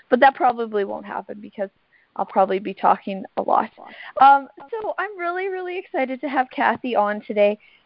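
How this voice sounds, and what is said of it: Hoarse, fading voice. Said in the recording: “I'm losing my voice a little bit, as you can hear”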